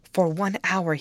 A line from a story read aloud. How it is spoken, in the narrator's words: he pleaded earnestly